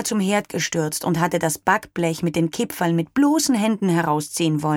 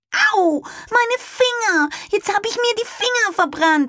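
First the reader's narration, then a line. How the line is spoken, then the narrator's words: Child screaming. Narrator (German): schrie Anna, die kleine Tochter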